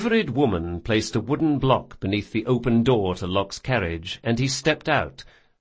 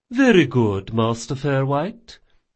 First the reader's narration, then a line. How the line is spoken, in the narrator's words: said the footman smoothly